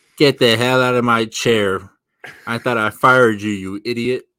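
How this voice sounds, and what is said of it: Impression of Bruce Prichard. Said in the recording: “my impression of Bruce Pitcher”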